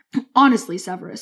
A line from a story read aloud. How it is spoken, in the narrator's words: said Dumbledore